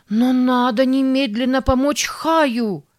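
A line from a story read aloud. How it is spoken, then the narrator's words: Desperate scream. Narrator (Russian): в отчаянии закричала Сара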